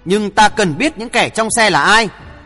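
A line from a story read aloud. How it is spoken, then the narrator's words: Snorting sharp question. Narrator (Vietnamese): Hoàng Thượng Chí hừ một tiếng hỏi gắt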